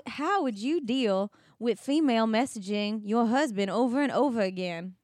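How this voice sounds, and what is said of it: Put-on Southern Alabama accent. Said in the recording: “accent's cute ... It sounds very Forrest Gump to me. It sounds like his mom. Is that Alabama? ... I'm definitely doing a Forrest Gump.”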